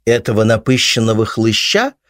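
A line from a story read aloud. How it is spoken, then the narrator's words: Woman snorting. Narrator (Russian): фыркнула рыжая собеседница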